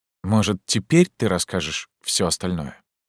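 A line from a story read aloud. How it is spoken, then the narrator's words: Quiet question. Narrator (Russian): Негромко, на русском, она спросила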